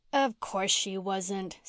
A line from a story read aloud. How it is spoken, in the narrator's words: scoffed Jerry